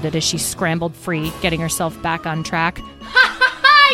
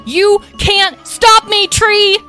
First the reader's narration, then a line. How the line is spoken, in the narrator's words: She yelled